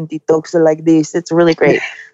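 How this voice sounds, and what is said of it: Imitated Spanish (Spain) accent. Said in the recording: “My dad is straight from Spain... He still has, you know, the accent.”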